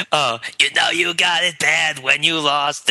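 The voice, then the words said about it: Imitates another person's singing voice. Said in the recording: “Now do Harvey Fierstein doing Usher.”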